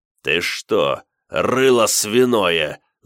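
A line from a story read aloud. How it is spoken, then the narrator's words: Angry growl. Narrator (Russian): зарычал Штырь, переключив свой гнев на Дерзюка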